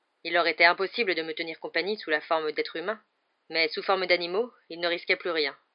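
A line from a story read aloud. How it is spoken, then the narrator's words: Plain. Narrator (French): répondit Lupin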